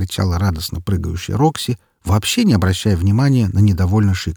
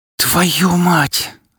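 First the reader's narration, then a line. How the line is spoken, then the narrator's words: Angry hiss. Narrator (Russian): злобно зашипела Лолька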